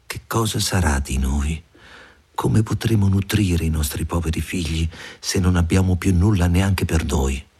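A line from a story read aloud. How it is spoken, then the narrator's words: Sighing, worried. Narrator (Italian): Sospirava, disse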